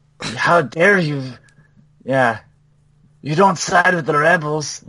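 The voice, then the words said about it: Exaggerated put-on Hispanic accent. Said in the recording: “In a somewhat racist accent... not just somebody doing an accent like I just did... an actual Hispanic person”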